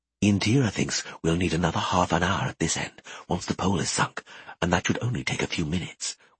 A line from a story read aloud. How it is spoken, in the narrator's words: whispered